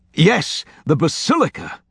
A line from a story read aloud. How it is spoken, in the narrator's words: Langdon exclaimed, triumph in his voice